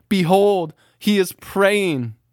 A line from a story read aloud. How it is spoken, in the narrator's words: your mother as she cries